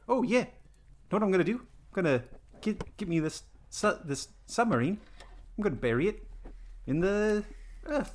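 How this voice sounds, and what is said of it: Put-on New Zealand accent. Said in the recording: “the whole time he's speaking in a New Zealand accent”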